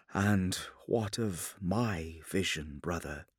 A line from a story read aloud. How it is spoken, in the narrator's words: Sanguinius asked quietly